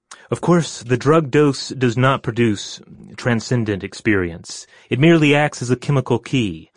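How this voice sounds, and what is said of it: Imitates another person's voice. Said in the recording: “I'm going to go ahead and read it in my impersonation of Timothy Leary”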